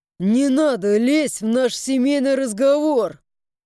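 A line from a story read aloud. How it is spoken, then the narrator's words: Growling. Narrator (Russian): С рычанием разворачиваюсь я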